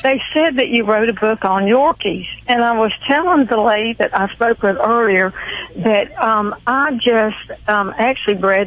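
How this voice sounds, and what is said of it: Southern Georgia accent. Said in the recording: “I love that southern accent ... that's the Georgia accent you have there ... ladies with that kind of accent”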